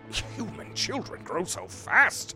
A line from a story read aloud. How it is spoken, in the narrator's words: he thought with a grunt